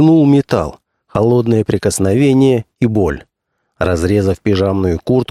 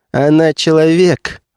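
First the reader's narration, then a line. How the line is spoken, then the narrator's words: Laughing. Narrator (Russian): рассмеялась Бетта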